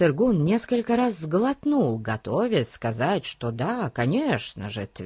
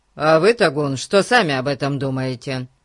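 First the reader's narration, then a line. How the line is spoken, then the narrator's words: Cold question. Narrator (Russian): Холодно спросил его Дженкс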